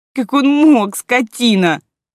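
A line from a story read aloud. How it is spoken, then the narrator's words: Sobbing. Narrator (Russian): рыдала Лера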